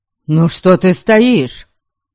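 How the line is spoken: Irritated. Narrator (Russian): Раздраженно всплеснул руками Дариан

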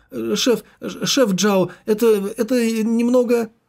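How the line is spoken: Embarrassed stammering babble. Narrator (Russian): запылало от смущения, и он, заикаясь, залепетал в трубку

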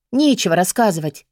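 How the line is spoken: Grumbling. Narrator (Russian): буркнула Бри

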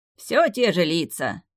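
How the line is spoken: Cheerful snort. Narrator (Russian): весело хмыкнул он

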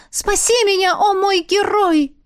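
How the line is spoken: Shouted. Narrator (Russian): крикнула

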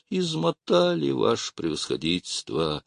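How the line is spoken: Dejected, apologetic voice. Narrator (Russian): упавшим голосом, как бы в извинение, сказал он

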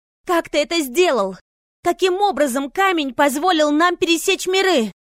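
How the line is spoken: Shouting. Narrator (Russian): кричала Лина

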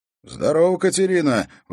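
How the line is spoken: Exclaimed. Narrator (Russian): воскликнул он

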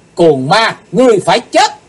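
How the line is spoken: Shout. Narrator (Vietnamese): Cùng trong tiếng hét

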